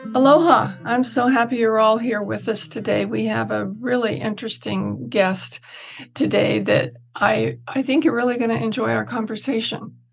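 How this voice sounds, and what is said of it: Losing voice, strained hoarse speech. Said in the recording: “I'm kind of losing my voice, so it's kind of hard to talk.”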